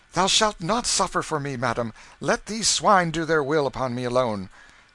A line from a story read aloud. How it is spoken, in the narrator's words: Canty, exclaiming